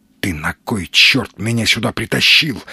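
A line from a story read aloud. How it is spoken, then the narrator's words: Angry hiss. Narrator (Russian): зло зашипел Сергей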